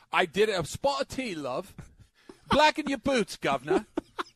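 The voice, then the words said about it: Exaggerated put-on British accent. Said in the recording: “me doing my British accent ... The greatest accent he's ever heard in his ... life ... That's awful. Nothing like a British accent”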